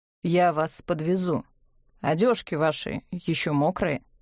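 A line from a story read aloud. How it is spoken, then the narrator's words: Bored official tone. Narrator (Russian): сказал он скучным официальным тоном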